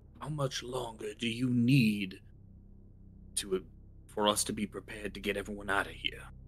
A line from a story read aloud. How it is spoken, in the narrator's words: whisper to her quietly